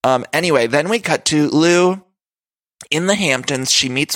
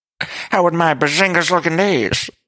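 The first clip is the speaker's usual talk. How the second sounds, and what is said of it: Dorinda impression, 1920s flapper voice. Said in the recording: “that impression was of Dorinda. It was like a 1920s flapper or something ... That's not a good impression ... It really does sound like a 1920s”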